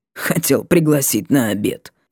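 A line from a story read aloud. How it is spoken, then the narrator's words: Woman, snorting. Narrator (Russian): хмыкнула женщина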